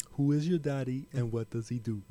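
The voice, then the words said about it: Imitates another person's accented voice. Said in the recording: “I fucking love Arnold ... the accent”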